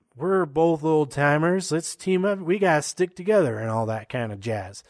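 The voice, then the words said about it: Imitates another person's voice. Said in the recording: “Worst Brian Kendrick impression ever. That's not even an impression. It's like some other character.”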